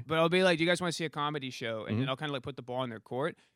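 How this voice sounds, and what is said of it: Michigan accent. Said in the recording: “what the hell kind of accent is that, by the way? Where are you from?... I'm from Michigan.”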